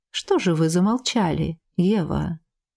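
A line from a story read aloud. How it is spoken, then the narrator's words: Insinuating question. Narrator (Russian): Вкрадчиво поинтересовался он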